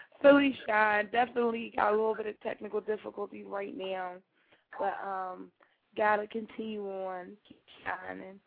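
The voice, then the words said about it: Raspy, hoarse voice. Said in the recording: “my beautiful, sexy, regular voice will be on, not this little raspy voice”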